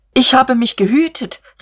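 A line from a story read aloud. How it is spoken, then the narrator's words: Interrupting shout. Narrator (German): rief der Angeklagte dazwischen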